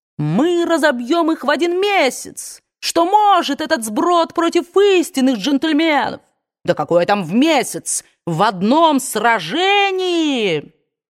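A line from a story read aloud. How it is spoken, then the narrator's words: Repeated heated shout. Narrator (Russian): Стюарт Тарлтон выкрикнул в который уже раз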